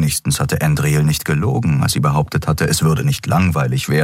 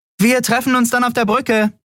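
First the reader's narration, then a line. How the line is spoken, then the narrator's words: Call. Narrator (German): rief sie Nelen zu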